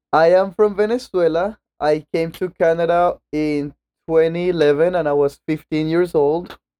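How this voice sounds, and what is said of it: Foreign accent in English. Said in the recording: “I sense an accent in your voice”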